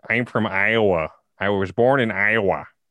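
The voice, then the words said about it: Put-on Iowan accent. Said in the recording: “Iowan accent ... it's got a weird.”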